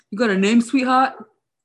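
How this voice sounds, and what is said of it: Put-on New York accent. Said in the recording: “I think my New York accent's getting pretty good also.”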